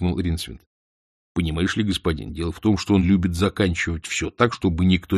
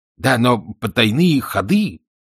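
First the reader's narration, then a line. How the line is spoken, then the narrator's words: Exclaiming. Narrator (Russian): воскликнул Ринсвинд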